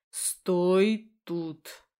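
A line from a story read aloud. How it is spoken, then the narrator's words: Repeated syllable by syllable. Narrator (Russian): повторил по слогам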